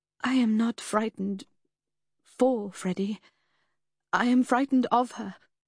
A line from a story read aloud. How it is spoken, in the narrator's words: she said hesitantly